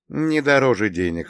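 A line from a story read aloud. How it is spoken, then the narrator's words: Smirking. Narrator (Russian): хмыкнул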